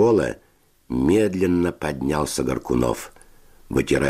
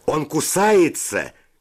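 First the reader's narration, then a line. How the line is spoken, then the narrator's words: Shout. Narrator (Russian): крикнул кто-то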